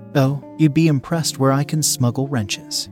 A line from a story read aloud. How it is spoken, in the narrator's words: she busted out laughing, and she said